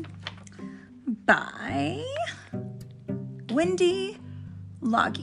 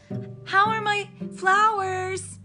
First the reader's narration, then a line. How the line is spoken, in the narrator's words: Iris shouted from the water's edge